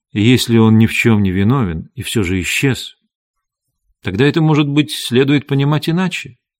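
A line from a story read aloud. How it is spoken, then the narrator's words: Gentle. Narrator (Russian): Мистер Адамс мягко сказал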